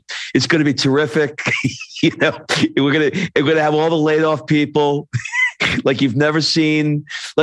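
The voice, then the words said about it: Imitates another person's voice. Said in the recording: “I almost feel like there's a Trump in there, so I feel like I'm do, about to do a Trump impression.”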